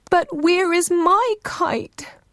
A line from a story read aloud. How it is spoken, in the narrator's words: Ururangi cried